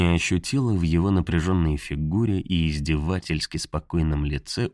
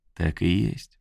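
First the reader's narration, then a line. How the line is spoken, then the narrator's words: Gentle interruption. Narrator (Russian): ласково перебил Тейлор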